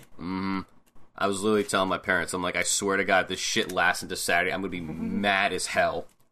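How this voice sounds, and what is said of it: Sick-sounding voice. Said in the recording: “I'm sick, in case you can't tell by my voice”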